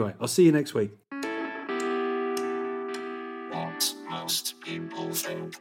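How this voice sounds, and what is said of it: Usual voice. Nothing is said of it.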